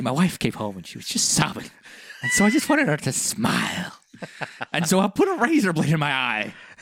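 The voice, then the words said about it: Imitation of the Joker's voice. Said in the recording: “how shite my Heath Ledger Joker impersonation is”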